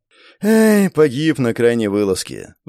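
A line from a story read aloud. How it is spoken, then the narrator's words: Sigh. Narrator (Russian): вздохнул мародер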